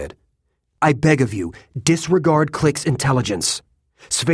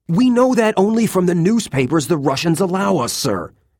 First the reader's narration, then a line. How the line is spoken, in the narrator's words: Antonin blurted